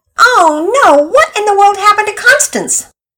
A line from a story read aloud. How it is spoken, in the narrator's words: Mama Peters came running in from the kitchen at Pearson's yelling